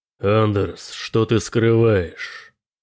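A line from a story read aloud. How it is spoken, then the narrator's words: Growl. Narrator (Russian): прорычал Суску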